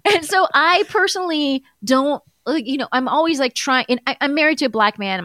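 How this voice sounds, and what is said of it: Iranian American accent. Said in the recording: “I'm sure listeners can tell from my voice that I'm an Iranian American Muslim.”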